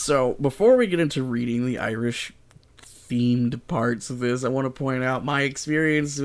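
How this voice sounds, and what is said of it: Usual voice. Nothing is said of it.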